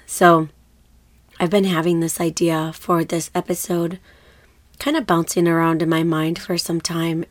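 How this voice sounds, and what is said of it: Slightly hoarse, funny-sounding voice. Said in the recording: “You might be able to tell in my voice that I am getting over a cold. ... I completely lost my voice last week, and my voice is coming back. ... My voice sounds a little funny”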